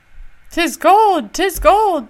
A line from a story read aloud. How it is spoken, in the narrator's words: cried